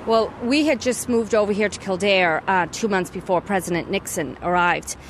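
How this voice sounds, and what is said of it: American accent. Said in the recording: “we hear an American accent”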